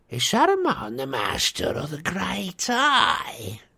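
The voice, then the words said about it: Menacing evil character voice. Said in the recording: “said the evil voice”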